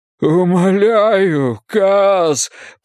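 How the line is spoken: Moaning plea. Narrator (Russian): простонал Боллигер

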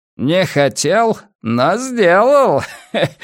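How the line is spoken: Loud laughing. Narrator (Russian): захохотал Масс

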